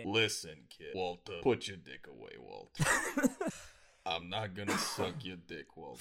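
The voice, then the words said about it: Imitates a TV hitman character's voice. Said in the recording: “I have a pretty good Mike Ehrmantraut impression... Mike, the bald guy, the hitman... That was pretty good.”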